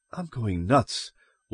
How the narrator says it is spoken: Loyce whispered

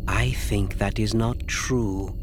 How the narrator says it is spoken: Asi said softly

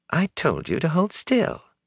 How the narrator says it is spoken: she said calmly

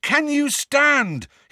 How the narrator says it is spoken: he bellowed in Neville's ear

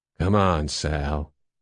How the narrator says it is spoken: he said quietly

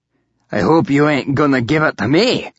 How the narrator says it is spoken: One Eye grumbled

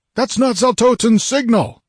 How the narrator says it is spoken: roared

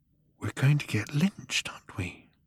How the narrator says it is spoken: he whispered

